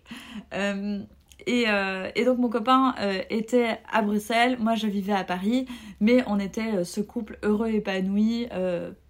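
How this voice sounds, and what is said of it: Belgian French accent. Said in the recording (French): “je m'excuse pour l'accent, si, si euh, j'en ai un... je suis bien belge”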